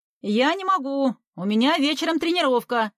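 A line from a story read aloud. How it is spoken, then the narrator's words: Son shouting through wall. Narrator (Russian): прокричал из-за стены сын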